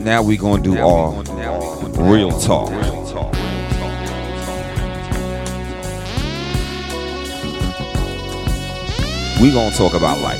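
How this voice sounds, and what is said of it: Deliberately deep voice. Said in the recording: “my little deep voice”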